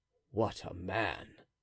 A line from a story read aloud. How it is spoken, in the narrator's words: murmured the king